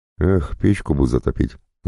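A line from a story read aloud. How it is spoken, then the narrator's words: Sighing. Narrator (Russian): вздохнул Артем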